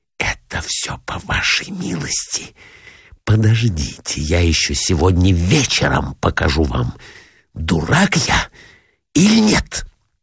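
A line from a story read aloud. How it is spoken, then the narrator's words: Furious angry whisper. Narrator (Russian): Раздраженный до крайности, злобно, прошептал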